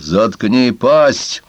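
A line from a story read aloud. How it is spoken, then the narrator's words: Growling dog. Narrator (Russian): Один из псов прорычал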